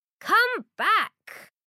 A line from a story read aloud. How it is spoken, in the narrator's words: Brown runs after him and shouts